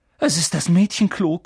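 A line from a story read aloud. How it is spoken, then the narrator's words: Panting. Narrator (German): keuchte Harry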